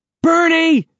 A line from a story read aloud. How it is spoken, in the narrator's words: She shouts